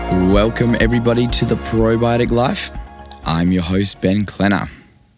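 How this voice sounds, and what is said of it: Voice sounds unwell, under the weather. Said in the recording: “I've been a bit under the weather and my voice is not the greatest”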